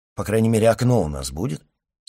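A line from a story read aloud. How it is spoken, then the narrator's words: Plain. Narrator (Russian): спросил Франц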